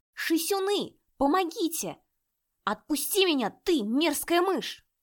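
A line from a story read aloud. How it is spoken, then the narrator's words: Yelled. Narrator (Russian): завопил он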